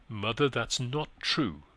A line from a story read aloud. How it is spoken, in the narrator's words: he firmly answered